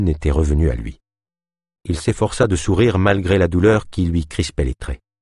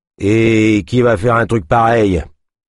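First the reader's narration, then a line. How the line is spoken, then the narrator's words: Trapper's gruff grumble. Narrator (French): grogna le trappeur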